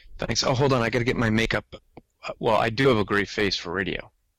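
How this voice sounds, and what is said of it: New Jersey accent. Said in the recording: “he has a New Jersey accent”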